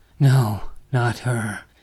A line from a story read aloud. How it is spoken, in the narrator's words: Martin gasps, his heart racing